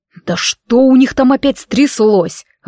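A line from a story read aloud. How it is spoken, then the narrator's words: Growled. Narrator (Russian): рыкнул Шон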